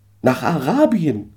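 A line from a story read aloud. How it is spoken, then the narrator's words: Calling out. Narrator (German): rief ich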